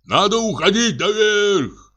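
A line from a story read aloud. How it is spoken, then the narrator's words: Shouted. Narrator (Russian): крикнул Денис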